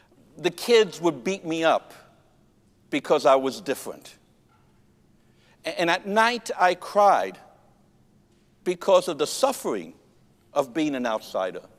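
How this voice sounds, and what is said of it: Noticeable foreign accent. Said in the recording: “I spoke with a funny accent. I still do.”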